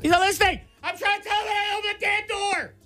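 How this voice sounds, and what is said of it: Yelling. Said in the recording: “you're yelling ... You still yelled.”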